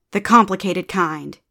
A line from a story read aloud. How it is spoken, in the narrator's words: snapped